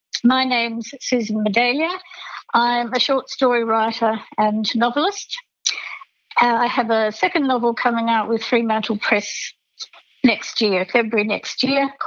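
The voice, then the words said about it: Slightly congested voice. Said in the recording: “you can probably hear from my voice, apart from the fact that I've got a slight cold”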